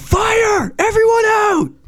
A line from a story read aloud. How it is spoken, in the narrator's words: I yell